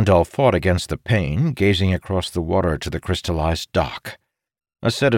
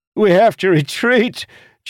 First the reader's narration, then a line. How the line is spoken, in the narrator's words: Jacob screamed